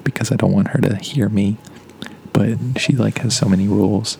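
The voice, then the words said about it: Speaking very quietly, near whisper. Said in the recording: “I'm talking really quietly”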